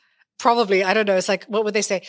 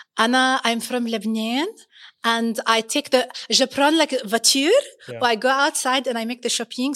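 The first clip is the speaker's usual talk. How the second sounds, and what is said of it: Put-on Lebanese accent. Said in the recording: “Can you do Lebanese?”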